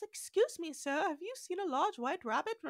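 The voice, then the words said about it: Little girl's English accent. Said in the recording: “A little blonde girl with an English accent appears”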